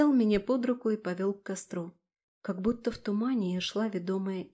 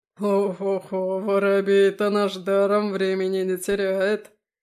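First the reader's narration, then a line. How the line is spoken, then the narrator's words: Deep bass, bearded man. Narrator (Russian): Обрывая песню, пробасил обладатель самой длинной кустистой бороды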